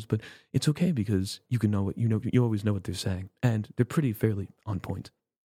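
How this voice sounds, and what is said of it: Hushed, compressed public-radio voice. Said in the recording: “the NPR sound ... highly compressed ... talking in hushed tones ... that's actually a very, very good impression ... you hear me now? This is what I sound like.”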